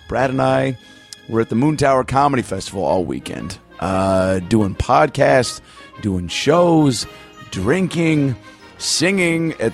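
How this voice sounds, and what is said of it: Slightly hoarse voice. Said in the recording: “My voice is a little hoarse because I just got back from Austin, Texas.”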